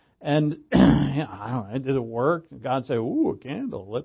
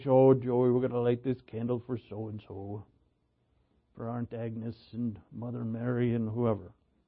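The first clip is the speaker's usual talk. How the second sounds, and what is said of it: Irish brogue accent. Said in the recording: “in her little Irish brogue”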